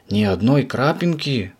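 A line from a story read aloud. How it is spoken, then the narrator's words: Confused question. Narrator (Russian): растерянно спросил Субастик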